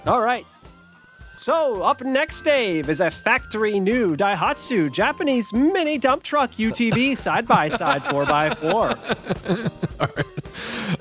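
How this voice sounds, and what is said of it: Game show announcer voice. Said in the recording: “I can't stop doing it in the game show voice”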